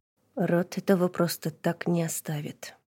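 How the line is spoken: Quiet speech. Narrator (Russian): негромко сказал Ильвек

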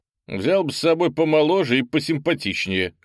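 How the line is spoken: Wry snort. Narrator (Russian): хмыкнул землянин

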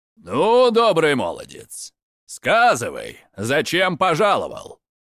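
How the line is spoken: Menacing elder's question. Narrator (Russian): Грозно спросил самый старший

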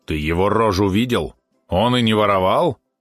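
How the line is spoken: Snorting. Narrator (Russian): фыркнул Валерон

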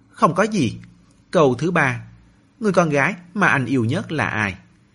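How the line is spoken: Sweet question. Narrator (Vietnamese): hỏi bằng giọng ngọt ngào

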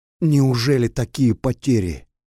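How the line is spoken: Involuntary exclamation. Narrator (Russian): невольно воскликнул он

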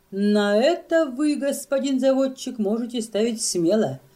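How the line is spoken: Laughing. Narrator (Russian): рассмеялся Йоста

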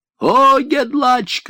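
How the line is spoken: Shouting. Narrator (Russian): кричал я

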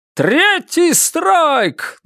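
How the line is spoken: Shouting into microphone. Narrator (Russian): Джо кричал в микрофон

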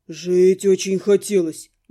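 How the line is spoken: Grumble. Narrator (Russian): буркнул Зяба

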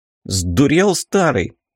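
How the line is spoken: Sharp cry. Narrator (Russian): вскрикнул незваный гость

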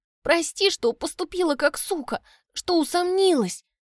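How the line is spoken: Sobbing. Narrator (Russian): Соня рыдает

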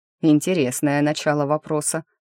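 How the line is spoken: Wry snort. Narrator (Russian): хмыкнул он

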